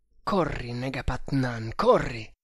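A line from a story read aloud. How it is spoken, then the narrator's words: Urgent murmur. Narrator (Italian): mormorò, come se il fuggiasco fosse lì vicino a udirlo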